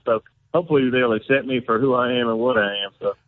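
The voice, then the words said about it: Southern US accent. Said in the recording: “cover up that Southern accent ... my South Carolina accent”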